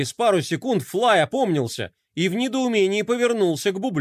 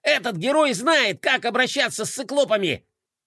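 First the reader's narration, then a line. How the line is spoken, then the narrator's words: Hopeful boy yelling loudly. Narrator (Russian): Обнадеженный, мальчик заорал, что есть мочи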